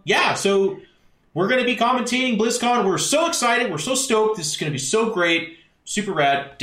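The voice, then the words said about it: Canadian accent, caster-style voice impression. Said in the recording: “Did you just do a Canadian accent for Nick? ... caster voice”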